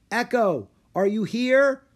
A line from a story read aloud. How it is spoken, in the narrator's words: Rory called out